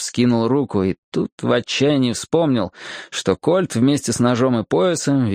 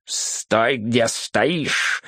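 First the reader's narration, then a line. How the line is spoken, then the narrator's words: Angry hiss. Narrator (Russian): злобно зашипел он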